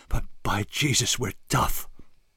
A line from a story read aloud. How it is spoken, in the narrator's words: she puffed, gasping for breath